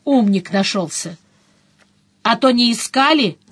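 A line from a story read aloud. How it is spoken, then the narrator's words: Loud groaning sigh. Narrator (Russian): Она громко со стоном вздохнула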